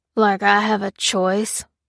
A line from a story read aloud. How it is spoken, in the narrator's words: grunted Ruth